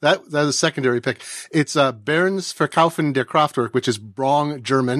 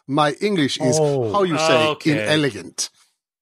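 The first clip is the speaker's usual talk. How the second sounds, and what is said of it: Put-on German accent. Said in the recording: “Let me do the German accent better.”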